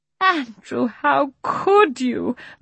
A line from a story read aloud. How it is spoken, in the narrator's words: moaned Miss Lark